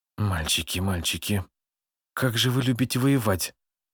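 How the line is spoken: Quiet whisper to herself. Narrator (Russian): тихо прошептала себе под нос Алая

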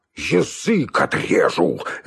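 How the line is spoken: Angry bark. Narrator (Russian): рявкнул он, наливаясь злобой

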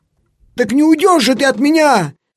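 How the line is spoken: Boy shouting. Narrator (Russian): закричал мальчик

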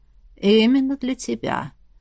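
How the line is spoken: Hoarse, convinced. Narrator (Russian): прохрипел он убежденно

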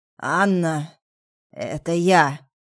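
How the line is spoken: Strained hoarse voice. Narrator (Russian): Голос был сорванным, хриплым

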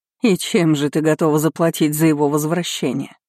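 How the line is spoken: Sudden mocking voice. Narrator (Russian): Внезапно прозвучало насмешливо

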